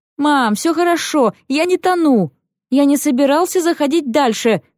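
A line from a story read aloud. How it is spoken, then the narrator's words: Shouting. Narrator (Russian): кричал он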